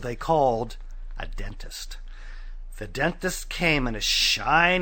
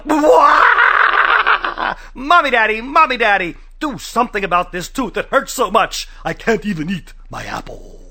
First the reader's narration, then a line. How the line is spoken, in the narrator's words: yelled